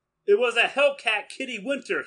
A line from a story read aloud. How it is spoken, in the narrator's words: he cried